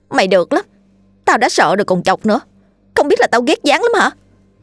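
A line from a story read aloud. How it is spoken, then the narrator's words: Sulky, resentful. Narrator (Vietnamese): Diễm nhăn nhó, hậm hực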